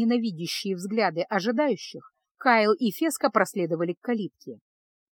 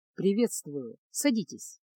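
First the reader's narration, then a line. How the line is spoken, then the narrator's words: Unexpectedly low voice. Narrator (Russian): произнес маг Дорог неожиданно низким голосом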